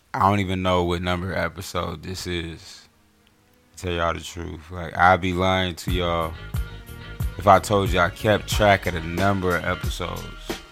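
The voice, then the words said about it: Slightly raspy voice. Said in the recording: “My voice is a little raspy because I was yelling”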